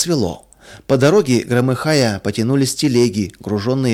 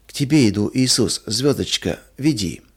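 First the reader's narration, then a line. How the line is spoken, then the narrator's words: Incoherent sleep whisper. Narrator (Russian): Маруся часто вздрагивала во сне и бессвязно шептала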